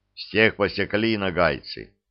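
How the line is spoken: Gloomy. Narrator (Russian): мрачно сказал атаман

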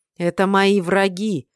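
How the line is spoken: Growled, losing restraint. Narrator (Russian): уже не сдерживаясь, прорычал

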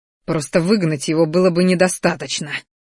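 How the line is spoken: Spiteful words through teeth. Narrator (Russian): Злобно процедил

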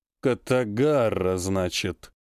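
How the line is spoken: Drawled by sorcerer. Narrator (Russian): протянул колдун

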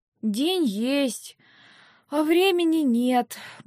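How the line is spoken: Grumbling mutter. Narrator (Russian): буркнула

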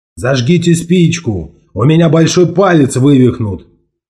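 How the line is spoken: Grim sailor shouting. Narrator (Russian): крикнул матрос Парсонс, смуглый и мрачный рулевой

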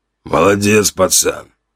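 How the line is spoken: Older man's hoarse rasp. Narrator (Russian): прохрипел мужчина с седыми висками

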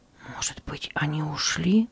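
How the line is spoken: Timid whisper. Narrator (Russian): осмелился прошептать Кристиан

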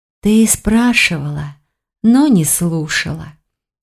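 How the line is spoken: Sigh. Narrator (Russian): вздохнула Тиган

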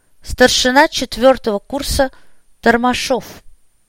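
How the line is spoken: Through clenched teeth. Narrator (Russian): катнув желваки, процедил курсант

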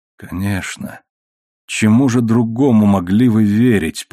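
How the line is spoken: Crushed, despondent voice. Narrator (Russian): произнес он убитым голосом

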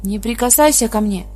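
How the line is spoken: Woman screaming. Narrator (Russian): кричала женщина

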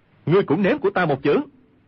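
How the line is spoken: Sharp shout. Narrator (Vietnamese): quát

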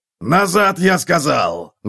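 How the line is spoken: Roared. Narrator (Russian): взревел Готрек

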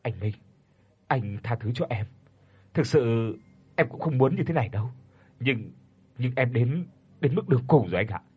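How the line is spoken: Muttering. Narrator (Vietnamese): Sau đó anh lẩm bẩm

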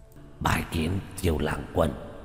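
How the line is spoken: Hoarse undead voice. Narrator (Vietnamese): Quỷ thi dùng giọng khàn khàn nói

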